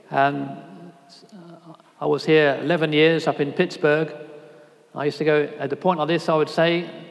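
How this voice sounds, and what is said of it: British accent. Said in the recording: “you'll hear from my accent, I'm not from around these parts. ... A lot of people have the same strange British accent over there.”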